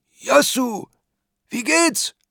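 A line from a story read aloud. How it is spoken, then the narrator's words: Call. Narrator (German): ruft er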